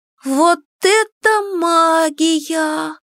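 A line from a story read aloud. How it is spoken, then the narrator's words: Drawled in admiration. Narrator (Russian): протянула Кико, восхищенно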